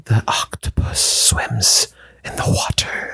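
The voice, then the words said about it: Breathy ASMR-style whisper. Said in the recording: “whisper really breathy ... sounded much better”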